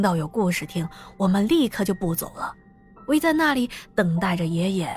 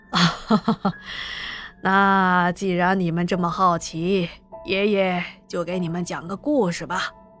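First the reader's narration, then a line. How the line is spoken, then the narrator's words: Cheerful old man. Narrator (Chinese): 老爷爷笑呵呵的继续解释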